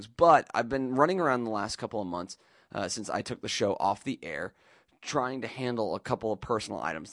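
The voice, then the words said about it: Unsteady voice, sounds sick. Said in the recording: “as you can hear, my voice is a little all over the place right now, um, just kicking a cold”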